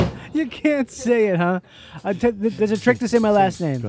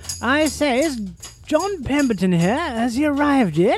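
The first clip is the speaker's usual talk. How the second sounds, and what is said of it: Put-on English accent. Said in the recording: “You just say it with an English accent.”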